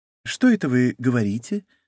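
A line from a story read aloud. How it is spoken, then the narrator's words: Gentle question. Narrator (Russian): спросил он ласково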